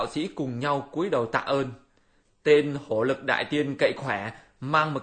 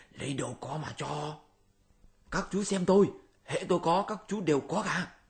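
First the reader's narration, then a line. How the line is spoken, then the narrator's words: Whispered. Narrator (Vietnamese): Bát Giới thì thầm nói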